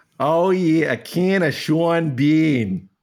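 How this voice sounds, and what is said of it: Put-on Boston accent. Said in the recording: “Was that a good Boston accent? ... That was pretty good. I thought you were doing Chicago.”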